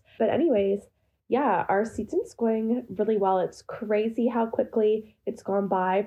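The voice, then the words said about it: Congested, sick-sounding voice. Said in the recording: “Sorry about my voice. You can probably tell, but I have a bit of a cold.”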